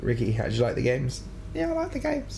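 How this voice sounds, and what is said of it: High-pitched imitation of another person. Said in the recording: “do I speak that high pitch? ... That's a really shit accent.”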